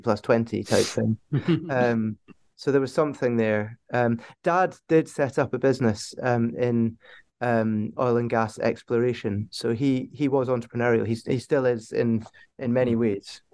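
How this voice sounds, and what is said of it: Scottish accent from Aberdeen. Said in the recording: “some people have picked up from your accent ... Aberdeen's a port city ... based on the east coast of Scotland”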